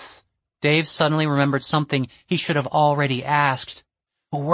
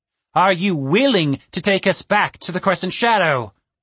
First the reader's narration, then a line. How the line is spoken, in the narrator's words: Mirkwort sneered